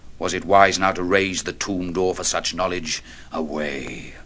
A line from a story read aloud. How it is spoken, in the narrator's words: bitterly some